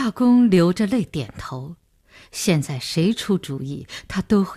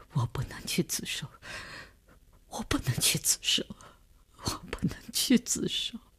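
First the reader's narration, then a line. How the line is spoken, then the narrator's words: Sobbing, breaking down, repeating. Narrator (Chinese): 李大公哭得悲悲切切，他的精神看上去已经濒于崩溃，只是不停地重复着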